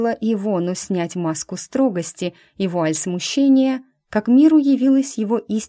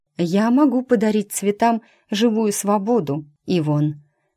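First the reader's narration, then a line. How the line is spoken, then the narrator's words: Slightly trembling objection. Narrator (Russian): слегка дрогнувшим голосом возразила она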